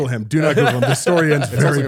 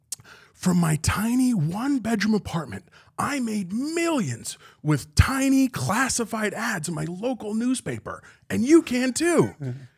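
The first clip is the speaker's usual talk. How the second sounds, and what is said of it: Imitates an infomercial pitchman's voice. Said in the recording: “going to do a terrible impression ... Awful impression ... an awful knockoff Tony Robbins”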